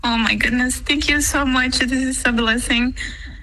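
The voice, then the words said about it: Emotional voice. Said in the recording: “Why do you get emotional?”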